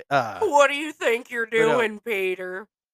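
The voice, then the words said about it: Imitates another person's voice. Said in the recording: “a Patrick Warburton impression.”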